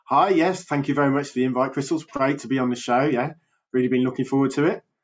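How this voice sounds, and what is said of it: English Birmingham accent. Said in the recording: “I'm from uh, England in the UK ... I've got a bit of a Birmingham accent”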